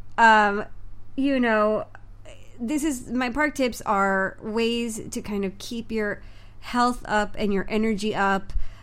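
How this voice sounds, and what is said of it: Sick, congested voice. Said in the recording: “I don't know if you can hear it in my voice. But I think I'm catching a cold, or I caught a cold”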